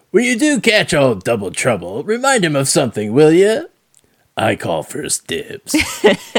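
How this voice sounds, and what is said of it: Imitates the Joker's voice. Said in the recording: “my Mark Hamill impersonation ... I can't do Mark Hamill.”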